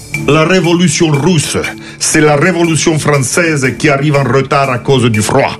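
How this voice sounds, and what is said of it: Put-on Catalan accent. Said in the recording (French): “On peut le faire avec l'accent ? ... pas avec l'accent russe ... C'est plutôt catalan.”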